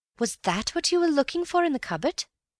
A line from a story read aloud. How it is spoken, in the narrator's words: said eagerly